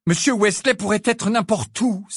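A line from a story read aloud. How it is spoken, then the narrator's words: Exclaiming. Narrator (French): s'exclama Harry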